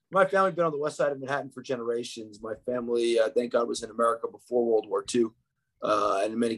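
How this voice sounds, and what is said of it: American New York accent. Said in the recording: “As you hear from my accent, I was not born in Israel. I grew up in New York”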